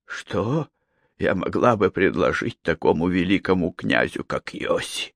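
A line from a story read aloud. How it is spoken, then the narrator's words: Hoarse, nauseated question. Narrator (Russian): хрипло спросила она, испытывая невыразимую дурноту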